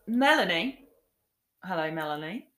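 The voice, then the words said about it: A bad put-on accent. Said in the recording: “with a bit of an accent there. A terrible accent. I don't even know what that is.”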